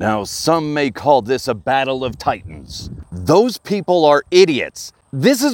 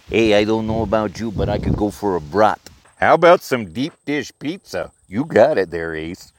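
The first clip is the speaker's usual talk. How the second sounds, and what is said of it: Cliché Chicago voice imitating Ditka. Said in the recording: “do the cliche voices of, oh, I don't know, Ditka?”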